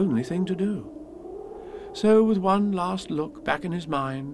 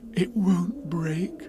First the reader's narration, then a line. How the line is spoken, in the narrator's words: whispered Pooh comfortingly